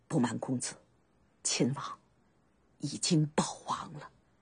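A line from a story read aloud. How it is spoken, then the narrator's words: Relieved, choking sob. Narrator (Chinese): 甘茂心下一松，一声哽咽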